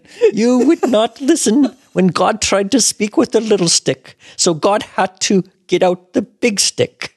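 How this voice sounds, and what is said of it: Put-on Greek accent. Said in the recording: “This is your best Greek accent.”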